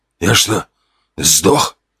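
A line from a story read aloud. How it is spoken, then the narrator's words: Hoarse rasp, coming round. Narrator (Russian): прохрипел тот, приходя в себя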